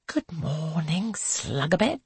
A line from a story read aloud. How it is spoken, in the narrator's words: Angelica hisses